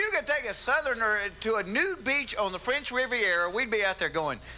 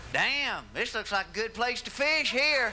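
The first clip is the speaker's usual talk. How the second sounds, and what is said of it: Put-on Southern accent. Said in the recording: “it's hard to be cool with a Southern accent... You can't do that with a Southern accent.”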